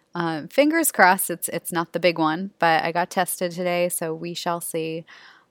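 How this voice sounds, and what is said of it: Raspy, under-the-weather voice. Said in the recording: “I'm a little under the weather as I record this today, so just FYI in case you're wondering why I'm a little raspy, if I start coughing ... in case you're wondering why I sounded a little raspy. I kind of think it sounds a little sexy”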